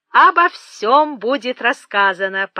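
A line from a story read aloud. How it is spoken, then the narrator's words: Hasty exclamation. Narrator (Russian): поспешно воскликнул Том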